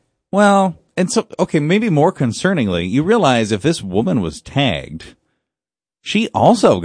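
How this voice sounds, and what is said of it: Usual voice. Nothing is said of it.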